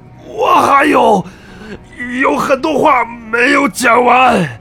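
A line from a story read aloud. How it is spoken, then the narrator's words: Breathless dying shout. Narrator (Chinese): 海日谷逐渐喘不上气 在濒临死亡时喊道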